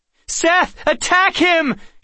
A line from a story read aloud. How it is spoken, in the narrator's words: cried